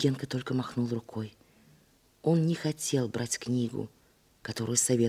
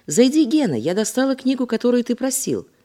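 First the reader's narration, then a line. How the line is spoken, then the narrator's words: Shouted. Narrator (Russian): крикнула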